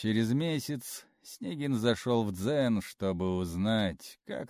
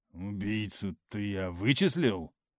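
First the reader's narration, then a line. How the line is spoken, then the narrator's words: Grumbled. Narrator (Russian): пробурчал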